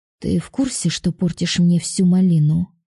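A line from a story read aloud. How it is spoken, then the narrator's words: Displeased grumble. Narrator (Russian): недовольно проворчала я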